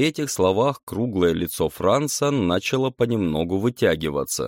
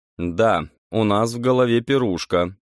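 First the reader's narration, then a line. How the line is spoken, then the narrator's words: Cold. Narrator (Russian): продолжал холодно Владислав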